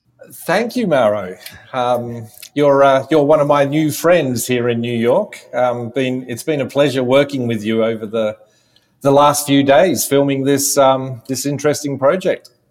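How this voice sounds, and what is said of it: Australian accent. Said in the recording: “You are not from New York, as somebody can hear eventually from your accent. ... I'm an Australian”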